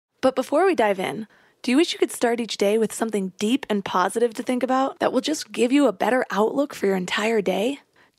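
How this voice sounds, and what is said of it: Slightly cracky, raspy early-morning voice. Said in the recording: “I'm recording this at like 5 a.m. right now, and I have not done vocal warm-ups. So if my voice is a little bit cracky, that is why. Oh, the turmoil of raspy voice life.”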